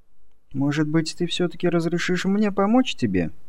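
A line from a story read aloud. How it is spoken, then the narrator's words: Soft question. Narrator (Russian): мягко спросила Джулия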